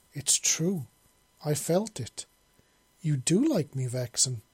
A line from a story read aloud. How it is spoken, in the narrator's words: Alex exclaimed